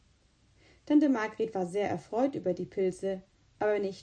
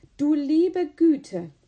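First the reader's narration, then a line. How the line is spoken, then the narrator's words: Exclamation. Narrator (German): rief aus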